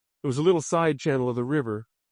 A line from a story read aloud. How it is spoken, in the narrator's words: Gary said